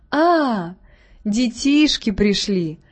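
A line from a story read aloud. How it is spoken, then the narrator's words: Father's affectionate greeting. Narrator (Russian): Встретил их тоже ласково отец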